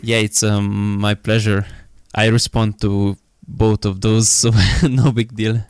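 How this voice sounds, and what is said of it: Slight Russian-sounding accent. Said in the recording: “I'm told that I have a Russian accent ... Yeah, it's kind of true, actually”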